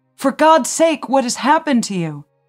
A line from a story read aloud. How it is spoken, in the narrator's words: screaming